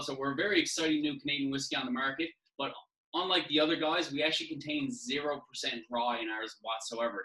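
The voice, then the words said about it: Newfoundland accent. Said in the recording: “if you can't tell from my accent ... I'm from St. John's, Newfoundland”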